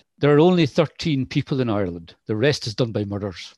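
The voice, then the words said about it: Imperfect put-on Irish accent. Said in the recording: “apologies for the accent... sorry for the accent. I should get it right, having an Irish mother”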